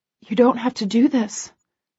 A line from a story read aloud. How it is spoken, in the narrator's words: I whisper back